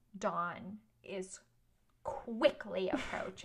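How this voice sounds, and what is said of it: Dramatic, theatrical delivery. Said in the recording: “because you said Dawn like that ... I must just say it really dramatically.”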